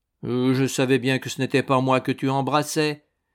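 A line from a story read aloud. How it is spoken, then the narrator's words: Sulky. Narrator (French): dit d'un ton boudeur la pauvre sœur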